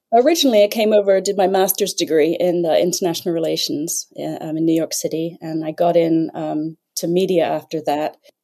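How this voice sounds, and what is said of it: English accent. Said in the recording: “you may detect another English accent”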